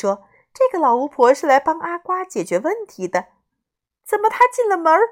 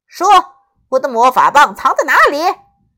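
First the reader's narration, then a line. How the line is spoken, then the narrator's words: Glum, dejected. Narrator (Chinese): 阿瓜一脸苦瓜相，说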